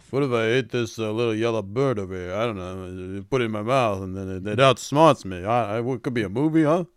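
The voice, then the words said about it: Mumbling impression of another person's voice. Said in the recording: “sounds just like him with like a glass of water in his mouth”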